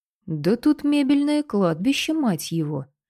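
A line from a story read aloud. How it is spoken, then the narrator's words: Exclamation with soft whistle. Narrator (Russian): воскликнул Твен, негромко присвистнув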